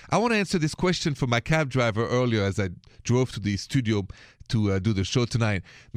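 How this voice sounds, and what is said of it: French accent. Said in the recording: “the accent is straight from Paris. I'm French.”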